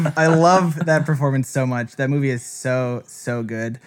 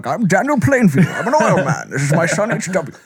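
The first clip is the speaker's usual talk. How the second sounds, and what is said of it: Impression of a film character's voice. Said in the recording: “doing an impression of him”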